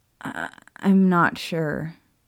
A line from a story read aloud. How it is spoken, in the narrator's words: Hermione admitted sadly, letting out a quiet sob